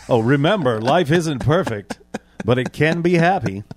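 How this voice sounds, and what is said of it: Radio announcer voice. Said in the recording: “How about the radio voice? ... The ... radio voice.”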